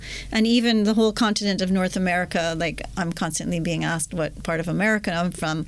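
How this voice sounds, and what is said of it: Subtle Canadian accent. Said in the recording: “I have a Canadian accent because I am Canadian ... Canadian accents generally are more generic ... very subtle”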